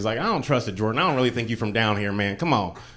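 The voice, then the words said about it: Southern redneck voice. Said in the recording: “this redneck friend”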